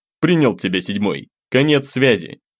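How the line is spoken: Curt, over radio. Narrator (Russian): бросил мужчина в рацию

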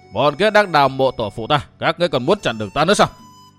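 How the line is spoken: Shout. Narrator (Vietnamese): Y quát

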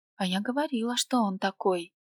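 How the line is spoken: Whispered in ear. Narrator (Russian): шепнула мне на ухо Рита

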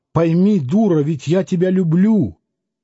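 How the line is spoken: Shouting. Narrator (Russian): Он даже кричал на маму

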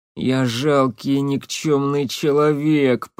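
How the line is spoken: Moaning. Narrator (Russian): простонал Лапшин

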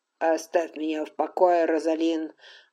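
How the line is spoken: Weary. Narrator (Russian): устало произнес Колум

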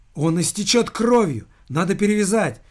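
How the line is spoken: Desperate girl's cry. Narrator (Russian): В отчаянии воскликнула девушка

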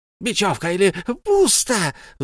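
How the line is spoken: Shrill squeal. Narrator (Russian): взвизгнул Голум

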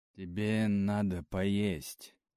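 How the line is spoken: Unexpectedly soft. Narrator (Russian): неожиданно мягко сказал Ники

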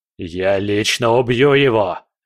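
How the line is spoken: Roaring. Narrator (Russian): взревел он

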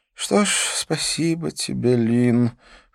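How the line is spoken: Repeated weary sigh. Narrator (Russian): в который раз вздохнул Дидье

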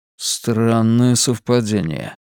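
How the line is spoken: Muttered. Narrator (Russian): пробормотал Хантон

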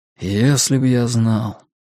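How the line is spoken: Sigh. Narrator (Russian): вздохнул Стью

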